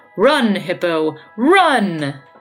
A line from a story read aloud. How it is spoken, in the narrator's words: the one nearest his nose cried out